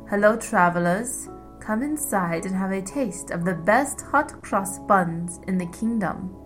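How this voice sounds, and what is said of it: Raspy refined accent. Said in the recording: “She rasped in a refined accent.”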